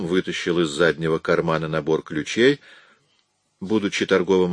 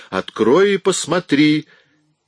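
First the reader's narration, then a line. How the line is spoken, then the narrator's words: Yelling. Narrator (Russian): заорала на него Шила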